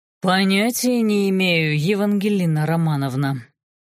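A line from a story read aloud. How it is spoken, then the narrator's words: Mocking drawl. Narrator (Russian): протянул чародей глумливо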